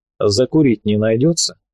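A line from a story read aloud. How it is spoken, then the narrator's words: Indifferent voice. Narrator (Russian): произнес он равнодушным голосом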